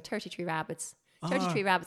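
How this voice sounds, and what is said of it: Put-on Irish accent. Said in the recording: “a guy try to teach me an Irish accent ... after a while, you can do it”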